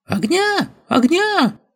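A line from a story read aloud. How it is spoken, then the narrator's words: Familiar shrill yell from above. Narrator (Russian): Хорошо знакомым, визгливым голосом негацианта Нара Гердо заорали сверху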